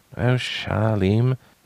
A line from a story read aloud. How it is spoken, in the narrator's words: he said softly